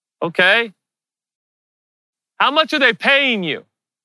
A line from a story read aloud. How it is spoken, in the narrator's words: The guard yelled back